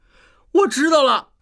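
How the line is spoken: Sudden strange cry. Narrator (Chinese): 突然，他怪叫一声

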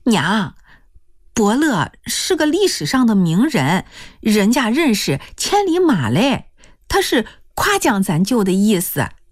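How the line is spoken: Laughing. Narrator (Chinese): 笑了

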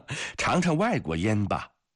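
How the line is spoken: Hearty laughter. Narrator (Chinese): 西兰基诺夫哈哈地笑着

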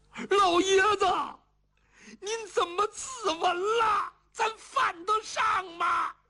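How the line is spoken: Wailing. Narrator (Chinese): 邱福放声痛哭，叫爹爹

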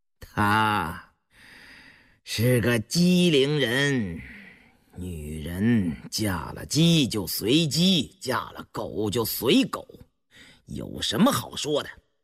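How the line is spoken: Icy laugh. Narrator (Chinese): 乌丝道冰冷冷地笑着

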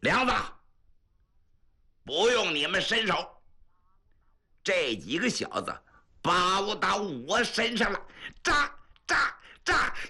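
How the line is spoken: Roaring like a lion. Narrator (Chinese): 他叫唤开，夜半三更，这声音都听出多远去，跟狮吼差不多少

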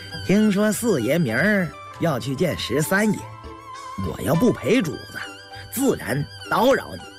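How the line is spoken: Laughing. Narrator (Chinese): 李卫笑了

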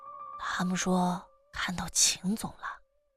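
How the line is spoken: Whisper. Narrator (Chinese): 悄声说

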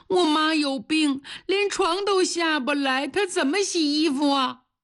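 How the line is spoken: Crying child. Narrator (Chinese): 张晓哭了，一边擦眼泪一边说

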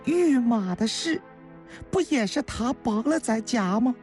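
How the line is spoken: Pained, tender sigh. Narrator (Chinese): 孙书童……心疼地叹了口气呀

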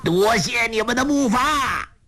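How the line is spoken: Laughing shout. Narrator (Chinese): 欧阳锋哈哈大笑，叫道

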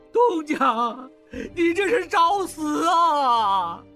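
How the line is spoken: Heartbroken wailing. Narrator (Chinese): 小栓撕心裂肺地痛哭起来

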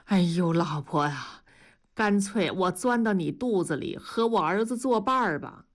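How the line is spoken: Sighing. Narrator (Chinese): 叹了口气说

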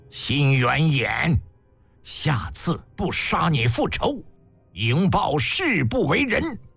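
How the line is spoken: Furious vow through gritted teeth. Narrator (Chinese): 迎报气得咬牙切齿，发誓

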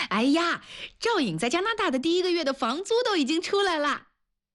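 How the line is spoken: Loud clamor. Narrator (Chinese): 她大声地嚷着

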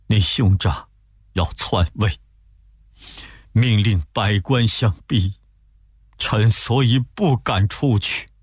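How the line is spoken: Crying. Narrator (Chinese): 献帝哭着说

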